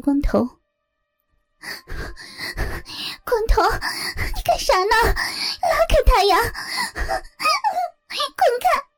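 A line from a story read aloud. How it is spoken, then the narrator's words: Panting repeated shouting. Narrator (Chinese): 一边粗重的喘息着，一边不断的喊着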